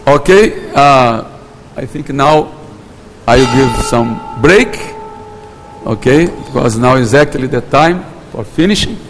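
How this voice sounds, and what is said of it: Portuguese-accented English. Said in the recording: “my English with Portuguese accent”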